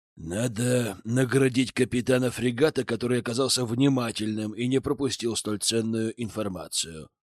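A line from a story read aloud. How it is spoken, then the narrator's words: Quiet. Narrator (Russian): тихо произнес Пит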